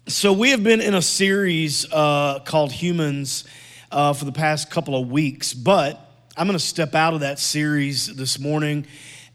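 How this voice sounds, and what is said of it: Hoarse, worn-out voice. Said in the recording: “I've been under the weather for about 2 or 3 days, and my voice is a little bit shot”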